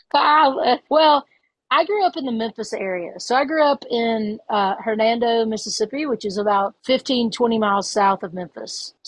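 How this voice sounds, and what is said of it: Southern US accent. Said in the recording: “Obviously the South, because you have an accent and we don't.”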